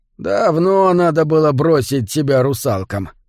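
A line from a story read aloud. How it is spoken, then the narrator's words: Old man's mock grumble. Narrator (Russian): изображая недовольство, проворчал старый рыбак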